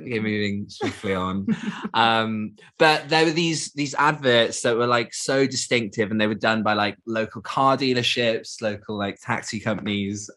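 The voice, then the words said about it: Thick Geordie accent. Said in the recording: “everyone can tell by your thick Geordie accent.”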